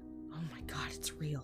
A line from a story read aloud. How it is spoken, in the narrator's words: she whispered